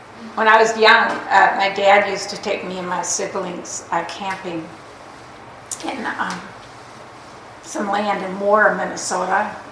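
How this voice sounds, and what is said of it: Minnesota accent. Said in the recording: “Notice how I say Minnesota and like my accent comes out.”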